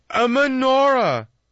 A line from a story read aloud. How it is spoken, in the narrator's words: Bunim gasped